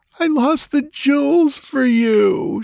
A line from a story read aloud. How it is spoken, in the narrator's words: she wailed miserably